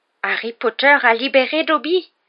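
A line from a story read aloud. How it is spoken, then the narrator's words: High-pitched squeaky exclamation. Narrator (French): s'écria l'elfe de sa petite voix aiguë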